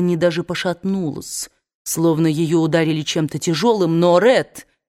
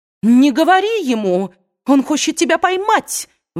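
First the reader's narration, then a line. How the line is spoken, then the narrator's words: Shouted out. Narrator (Russian): выкрикнула Индия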